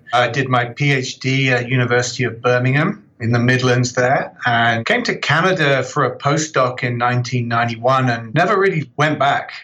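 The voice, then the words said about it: British accent from southern England. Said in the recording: “you can probably tell from my accent, I'm originally from the UK, just south of London”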